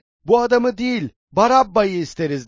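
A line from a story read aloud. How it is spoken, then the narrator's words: Crowd shouting together. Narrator (Turkish): diye bağırıştılar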